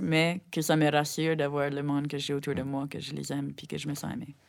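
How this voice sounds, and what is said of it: Acadian French accent, English-sounding. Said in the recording (French): “j'ai un accent euh, qui sonne comme si je parle anglais”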